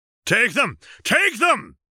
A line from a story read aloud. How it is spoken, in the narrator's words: Rigo bellowed